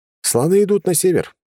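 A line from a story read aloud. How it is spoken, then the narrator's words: Cheerful. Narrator (Russian): весело сказал я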